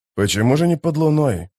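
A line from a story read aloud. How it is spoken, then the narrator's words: Mutter. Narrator (Russian): пробормотал историк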